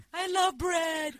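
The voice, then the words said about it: Oprah impression. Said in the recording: “pretty good Oprah impression”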